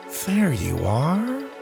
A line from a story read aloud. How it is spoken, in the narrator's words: he said quietly